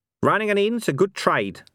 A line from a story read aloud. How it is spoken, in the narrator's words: said Cohen